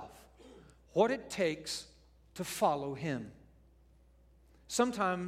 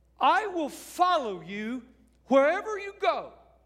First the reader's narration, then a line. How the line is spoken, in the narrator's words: he shouts out